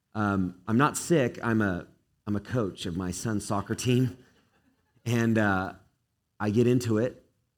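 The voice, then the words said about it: Hoarse voice. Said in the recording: “bear with my hoarse voice ... bear with my hoarseness”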